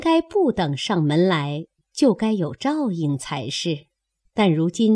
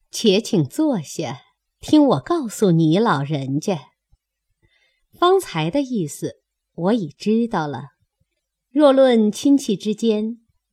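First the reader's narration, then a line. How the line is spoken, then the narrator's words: Laughing. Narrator (Chinese): 凤姐笑道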